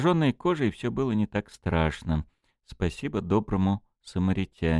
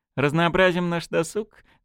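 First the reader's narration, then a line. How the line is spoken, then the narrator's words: Laughing. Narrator (Russian): засмеялась Полина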